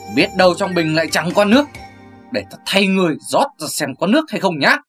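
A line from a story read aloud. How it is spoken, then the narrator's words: Eerie laugh. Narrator (Vietnamese): bật cười ghê rợn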